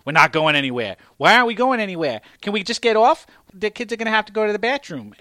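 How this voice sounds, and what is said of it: Put-on accent voicing arguing parents. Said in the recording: “Maybe not with that accent ... definitely not with that accent”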